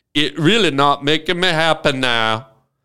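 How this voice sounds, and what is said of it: Put-on Cajun accent. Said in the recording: “I'm going to tell you in a Cajun voice.”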